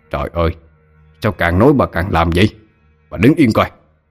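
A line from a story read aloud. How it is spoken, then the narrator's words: Snapping irritably. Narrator (Vietnamese): Ông ta gắt lên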